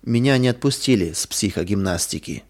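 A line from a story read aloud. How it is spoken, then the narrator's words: Sad, lifeless voice. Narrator (Russian): Лиля грустная потухшим голосом сказала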